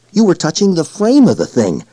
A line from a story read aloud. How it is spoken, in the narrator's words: Panario said excitedly